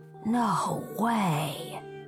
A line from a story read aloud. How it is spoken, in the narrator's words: Rowan breathed